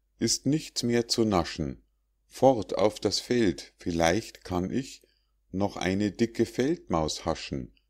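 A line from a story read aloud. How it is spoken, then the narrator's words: Sighing. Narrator (German): seufzt er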